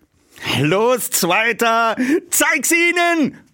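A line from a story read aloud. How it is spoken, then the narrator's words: Loud shout. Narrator (German): rief laut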